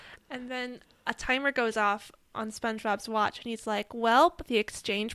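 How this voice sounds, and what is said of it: Usual voice. Nothing is said of it.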